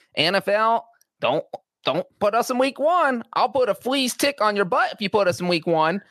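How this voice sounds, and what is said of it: Poor Jerry Jones impression. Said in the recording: “That is a terrible Jerry Jones accent.”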